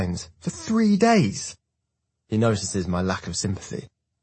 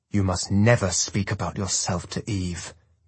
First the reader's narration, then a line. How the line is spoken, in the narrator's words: he growls through his clenched teeth